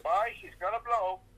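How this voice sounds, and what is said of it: Put-on Irish-sounding accent. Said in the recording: “They talk like they're Irish around there for some reason ... accent”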